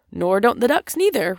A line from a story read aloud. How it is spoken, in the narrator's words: replied the rat cheerfully